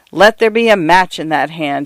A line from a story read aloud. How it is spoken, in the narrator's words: he said